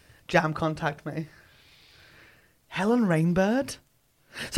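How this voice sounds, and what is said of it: Usual voice. Nothing is said of it.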